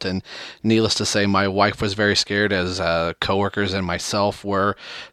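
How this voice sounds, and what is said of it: Raspy, hoarse voice. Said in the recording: “sounding like Batman ... my voice still feels a little raspy. I don't know if you can kind of hear it in my voice ... clearing my throat from time to time”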